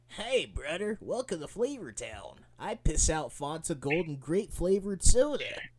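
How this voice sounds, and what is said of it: Intercom-style announcer voice. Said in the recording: “use that in an intercom voice”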